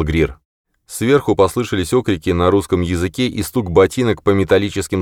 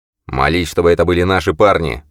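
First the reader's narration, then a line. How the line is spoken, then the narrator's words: Growled. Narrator (Russian): прорычал Грир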